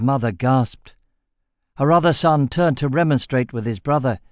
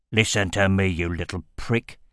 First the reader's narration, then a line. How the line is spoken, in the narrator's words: snarled